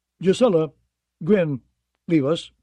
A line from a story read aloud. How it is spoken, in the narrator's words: Goodbrother said curtly